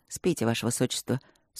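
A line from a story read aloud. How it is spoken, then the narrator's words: Dry. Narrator (Russian): сухо проговорил он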